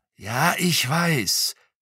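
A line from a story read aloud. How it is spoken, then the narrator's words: Hissed. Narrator (German): zischte er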